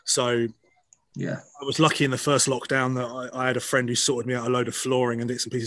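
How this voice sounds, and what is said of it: Scottish accent. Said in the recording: “I'm a Scot believe it or not, from this accent you're hearing right now.”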